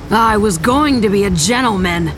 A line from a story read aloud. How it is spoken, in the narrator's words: Harlow snarled